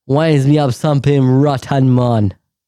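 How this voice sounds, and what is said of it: Jamaican-sounding accent. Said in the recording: “Why do I sound like a Jamaican?”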